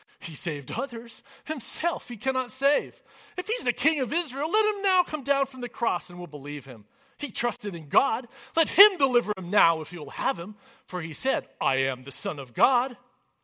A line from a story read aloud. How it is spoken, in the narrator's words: the chief priests also, mocking with the scribes and elders, said